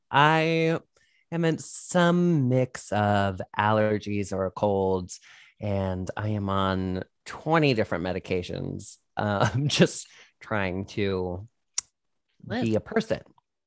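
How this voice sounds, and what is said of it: Congested, sultry-sounding voice. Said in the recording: “Do you like the sultry sound of my voice? ... You sound sexy, honestly. I know that you're a little stuffed up”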